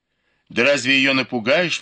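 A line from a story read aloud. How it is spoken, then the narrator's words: Exclamation. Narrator (Russian): воскликнула она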